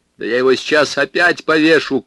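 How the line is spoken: Angry shout. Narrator (Russian): крикнул я злобно

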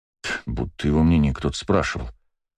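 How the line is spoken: Muttering under breath. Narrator (Russian): буркнул себе под нос Астарот

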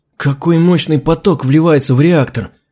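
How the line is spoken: Excited exclamation. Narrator (Russian): восторженно воскликнул

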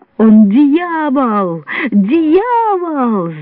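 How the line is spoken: Frantic shriek, widow. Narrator (Russian): завизжала вдова, очевидно обезумев

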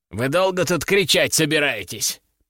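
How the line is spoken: Displeased grumble. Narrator (Russian): пробурчал он, недовольно

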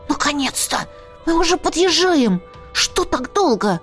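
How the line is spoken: Little dragon hissing. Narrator (Russian): прошипел дракончик

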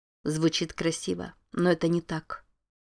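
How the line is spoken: Calm, even voice. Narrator (Russian): сказала Анна спокойным, ровным голосом

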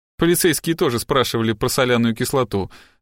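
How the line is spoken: Plain. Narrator (Russian): сказала она

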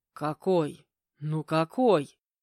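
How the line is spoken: Frowning growl. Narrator (Russian): Нахмурившись, прорычал Анатолий

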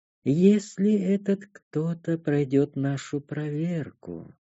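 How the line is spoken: Purring. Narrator (Russian): мурлыкнула Танша

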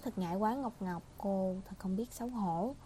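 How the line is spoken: Soft laughing speech. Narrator (Vietnamese): Cái cô khẽ cười, che mặt nói

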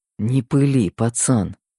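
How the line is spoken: Muttering. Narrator (Russian): Пробормотал я

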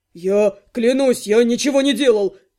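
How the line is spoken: Wailing. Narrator (Russian): Взвыл Мерзьен

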